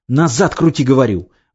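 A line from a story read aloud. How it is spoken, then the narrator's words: Yelling right by the ear. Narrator (Russian): вопил над ухом Ксива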